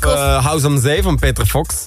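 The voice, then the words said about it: Put-on accent. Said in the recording (Dutch): “Nice accent”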